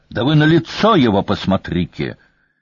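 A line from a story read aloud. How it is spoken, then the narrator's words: Furious. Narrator (Russian): разъяренно начала она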